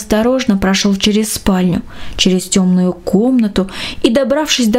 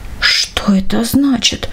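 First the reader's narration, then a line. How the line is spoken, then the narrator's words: Astonished whisper. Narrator (Russian): прошептал он, уставившись изумленно в темноту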